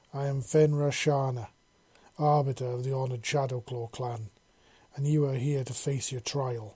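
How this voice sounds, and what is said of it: Gruff male character voice. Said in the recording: “the male said in a gruff voice.”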